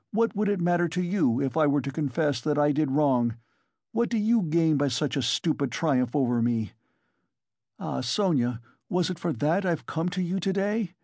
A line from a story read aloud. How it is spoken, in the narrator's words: he cried with a sort of despair